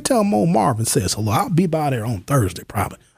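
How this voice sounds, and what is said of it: Texas twang, Southern accent. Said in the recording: “He had a little bit of that Texas twang, a little bit of a Southern accent.”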